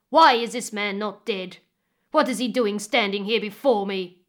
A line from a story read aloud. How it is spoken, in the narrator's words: the chief roared when he saw Ilio